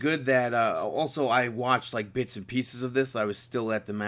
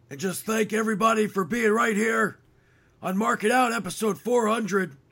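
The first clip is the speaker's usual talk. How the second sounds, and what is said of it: Imitates a wrestler's voice. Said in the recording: “doing Bret Hart impressions for like hours on hours. And it like kills my voice. You know, like I talk like Bret the Hitman Hart.”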